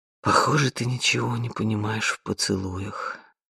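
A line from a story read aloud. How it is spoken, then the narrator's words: Sighing. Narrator (Russian): вздохнул он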